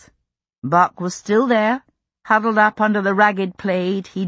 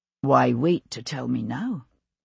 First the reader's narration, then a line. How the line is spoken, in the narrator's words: he asked quietly